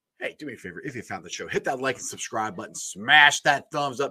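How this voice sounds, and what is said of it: Voice still recovering, strained. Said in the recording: “my voice is still recovering from last Sunday”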